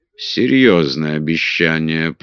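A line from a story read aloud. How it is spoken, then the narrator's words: Muttered. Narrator (Russian): пробормотал король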